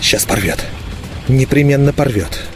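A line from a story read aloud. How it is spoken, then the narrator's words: Silent lip whisper. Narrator (Russian): Незаметно для себя начал шептать я одними губами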